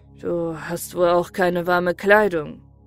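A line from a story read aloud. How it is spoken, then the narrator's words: Sighing. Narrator (German): seufzte und sagte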